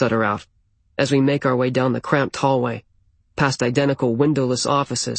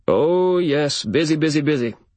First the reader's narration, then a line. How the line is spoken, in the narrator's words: he says in a booming bass voice